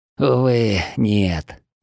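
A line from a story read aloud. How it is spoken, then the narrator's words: Sad young chief. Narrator (Russian): грустно ответил молодой вождь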